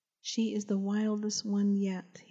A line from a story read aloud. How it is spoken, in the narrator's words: laughed with satisfaction